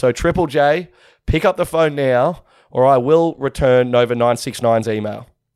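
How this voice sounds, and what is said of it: Strained, worn-out voice. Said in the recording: “I have no voice left ... my voice is not going so well”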